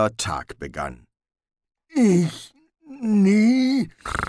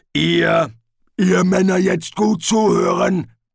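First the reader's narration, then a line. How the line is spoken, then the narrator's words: Thundering. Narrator (German): donnerte Detritus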